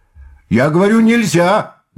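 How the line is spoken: Shout. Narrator (Russian): закричал опять Назаров

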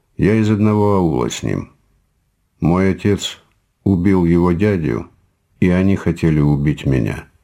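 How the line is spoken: Calm. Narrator (Russian): сказал он спокойно

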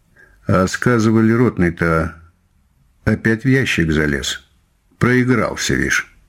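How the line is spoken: Soldier's lazy voice. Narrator (Russian): сказал один из солдат ленивым голосом

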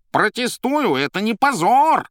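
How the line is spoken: Yelling. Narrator (Russian): орал кот

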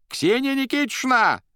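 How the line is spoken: Piercing shout. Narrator (Russian): пронзительно закричал он

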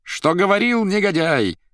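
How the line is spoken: Shrieking and laughing. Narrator (Russian): визжала и хохотала Наташа

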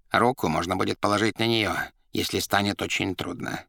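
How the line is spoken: Whisper. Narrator (Russian): шептал Коровьев

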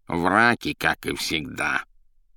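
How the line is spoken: Grumbling. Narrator (Russian): ворчала Азазелла

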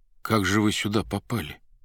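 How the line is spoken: Whispered question. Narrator (Russian): повинуясь сухому грозящему пальцу, шепотом спросил Иван

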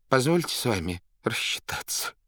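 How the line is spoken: Crushed whimper. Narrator (Russian): проскулил убитый Степа

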